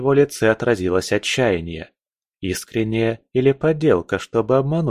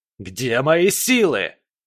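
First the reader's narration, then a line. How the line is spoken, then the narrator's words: Grandmaster's shout. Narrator (Russian): выкрикнул гроссмейстер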